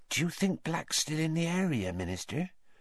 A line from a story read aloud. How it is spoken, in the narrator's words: whispered Madame Rosmerta